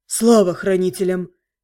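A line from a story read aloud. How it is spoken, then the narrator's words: Sighing in unison. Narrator (Russian): синхронно вздохнули близнецы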